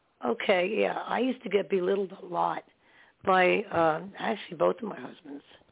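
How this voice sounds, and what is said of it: Poor, hard-to-understand voice. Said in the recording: “no one can understand me probably because my voice is so bad”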